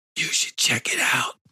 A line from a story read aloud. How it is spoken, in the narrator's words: Roscoe whispered